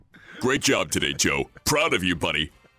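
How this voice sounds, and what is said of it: Impression of another person's voice. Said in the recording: “That's a pretty good Gabe impersonation. ... That was a pretty good Gabe. ... That's a different kind of voice.”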